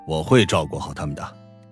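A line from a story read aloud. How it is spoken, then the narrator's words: Low, deep voice. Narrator (Chinese): 史嘉诚沉声道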